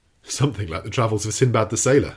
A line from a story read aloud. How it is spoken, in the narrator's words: I replied, laughing